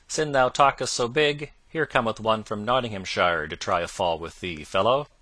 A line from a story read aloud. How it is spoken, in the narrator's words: above all the laughter, a loud voice was heard to cry out